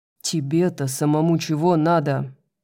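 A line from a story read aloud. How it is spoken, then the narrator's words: Growling. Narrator (Russian): прорычал Хант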